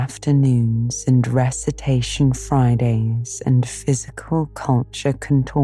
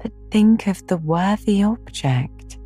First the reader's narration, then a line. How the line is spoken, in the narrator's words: pleaded Anne